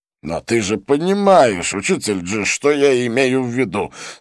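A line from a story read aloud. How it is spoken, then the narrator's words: Slightly irritated. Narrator (Russian): сказал чуть раздраженно чистолюбец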